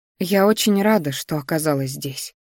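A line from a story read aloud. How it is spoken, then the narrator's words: Sighing, quiet. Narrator (Russian): вздохнув, тихо сказала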